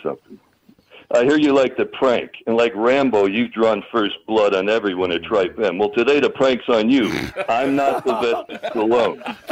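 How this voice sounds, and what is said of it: Imitates another person's voice. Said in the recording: “I'm an impersonator ... God, you sound like him. ... You do sound like him. You're bloody good, mate.”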